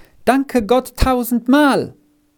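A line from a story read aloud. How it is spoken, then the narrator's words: Hurried call. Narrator (German): rief er nur noch eilig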